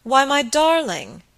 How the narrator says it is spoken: he exclaimed

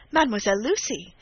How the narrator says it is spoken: cried Rosine, bursting in

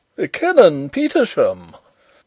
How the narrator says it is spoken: exclaimed the Professor

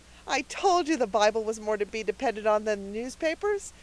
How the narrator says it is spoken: said Cecily triumphantly

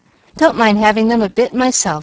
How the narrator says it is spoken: said Frank, in such a tone of cheerful resignation

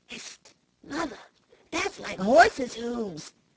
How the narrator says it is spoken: he whispered

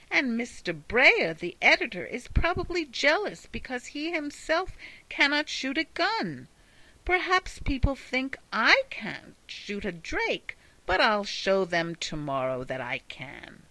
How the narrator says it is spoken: exclaimed the little man, much provoked

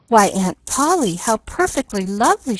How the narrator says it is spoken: she cried

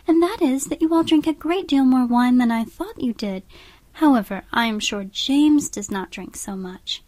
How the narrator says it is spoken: said Catherine warmly

